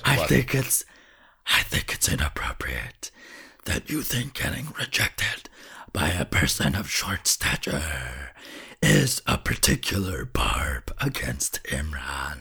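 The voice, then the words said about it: Demon character voice. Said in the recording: “demon boy ... demon voice”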